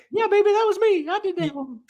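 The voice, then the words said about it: Jimmy Hart impression. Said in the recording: “great Jimmy Hart impression”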